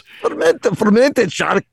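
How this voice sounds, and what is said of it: Attempted Icelandic accent, sounds Scottish. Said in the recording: “my best Icelandic accent ... That sounds more Scottish than Icelandic ... Like a pirate there”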